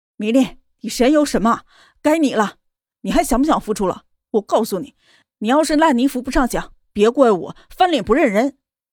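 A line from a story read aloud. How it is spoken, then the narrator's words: Roaring into microphone. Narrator (Chinese): 方圆对着麦克风大吼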